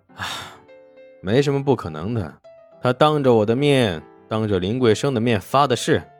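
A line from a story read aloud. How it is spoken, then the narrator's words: Sighing. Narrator (Chinese): 沈梦生叹气道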